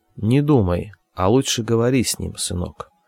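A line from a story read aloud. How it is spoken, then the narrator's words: Quiet. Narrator (Russian): тихо сказала Полина Васильевна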